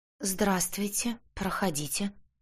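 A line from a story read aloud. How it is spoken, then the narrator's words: Trembling voice. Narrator (Russian): дрожащим голосом сказала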